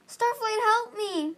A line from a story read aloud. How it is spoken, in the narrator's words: Fate Speaker yelled